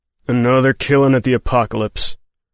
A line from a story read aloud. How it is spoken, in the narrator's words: the marshal growled